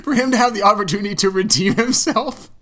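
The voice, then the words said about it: Voice cracking with laughter. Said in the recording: “I'm cracking up... my voice is cracking”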